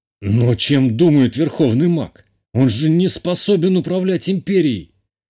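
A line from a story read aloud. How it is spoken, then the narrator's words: Indignant exclamation. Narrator (Russian): воскликнул мой отец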